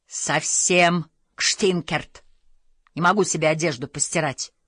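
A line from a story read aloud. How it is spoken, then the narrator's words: Grumbling. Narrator (Russian): ворчала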